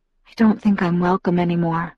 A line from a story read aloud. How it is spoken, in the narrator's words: I whispered